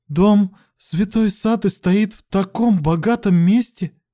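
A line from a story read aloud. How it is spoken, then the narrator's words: Trembling voice. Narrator (Russian): дрожащим голосом выговорила она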